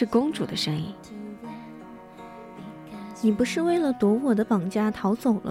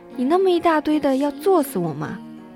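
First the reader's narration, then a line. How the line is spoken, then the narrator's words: Shrieking from below. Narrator (Chinese): 身下一阵尖叫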